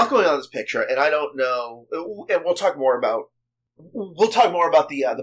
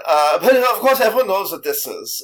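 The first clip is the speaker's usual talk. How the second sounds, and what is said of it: Put-on German accent. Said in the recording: “This is more German accent, but it's the only accent I've got. ... So I'm just going to go German.”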